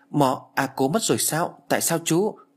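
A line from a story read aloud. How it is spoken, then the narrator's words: Stammering question. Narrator (Vietnamese): Tôi lắp bắp hỏi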